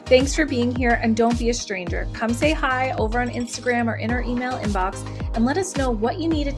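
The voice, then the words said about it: East Coast American accent. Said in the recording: “my East Coast accent”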